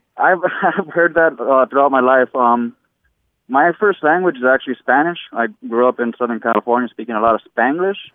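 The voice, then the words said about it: Unusual, hard-to-place accent. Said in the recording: “your accent is telling me a different story ... I've had people tell me that I sound Irish, Australian, or just can't pinpoint it ... a unique and novel idiolect”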